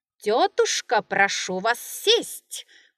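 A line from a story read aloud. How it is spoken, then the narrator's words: Shouted. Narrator (Russian): крикнул хозяин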